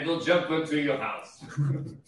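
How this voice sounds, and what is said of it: Put-on German accent. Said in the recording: “Trying to do like a German accent ... You just sound like Arnold Schwarzenegger.”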